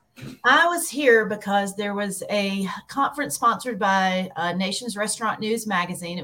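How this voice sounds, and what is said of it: Southern Alabama accent. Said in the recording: “there's definitely a cool accent there ... Birmingham, Alabama, born and bred.”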